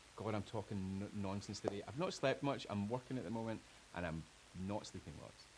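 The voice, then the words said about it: Scottish accent. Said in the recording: “I love Scottish accents”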